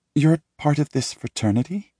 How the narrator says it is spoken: She asks, her voice curious and a tad bit judgmental

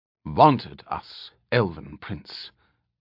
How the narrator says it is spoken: Alanon had replied coldly

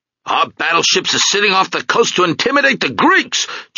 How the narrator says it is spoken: Jimmy Fioritos was yelling

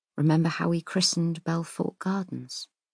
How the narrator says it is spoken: he says quietly

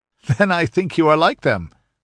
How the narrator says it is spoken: laughed Prospero

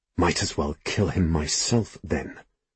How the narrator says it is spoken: I hiss back

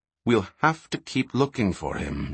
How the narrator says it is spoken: Shay replied evenly

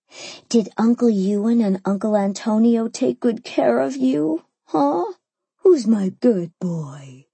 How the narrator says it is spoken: I cooed

